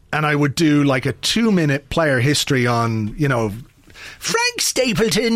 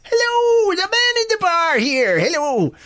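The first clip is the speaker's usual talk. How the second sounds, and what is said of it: Exaggerated put-on Irish accent. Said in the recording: “it was basically a ridiculous Irish accent, which I can't even remember how it goes”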